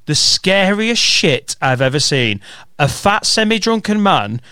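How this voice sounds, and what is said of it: Usual voice. Nothing is said of it.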